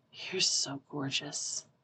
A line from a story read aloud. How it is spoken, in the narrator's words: Pisang whispers